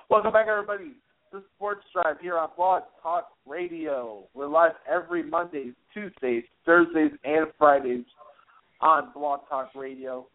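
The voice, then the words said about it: Chicago accent. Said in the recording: “I have a Chicago accent.”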